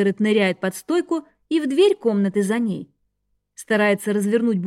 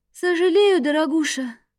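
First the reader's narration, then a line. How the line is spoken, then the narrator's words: Sleepy reply. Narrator (Russian): сонно отзывается голос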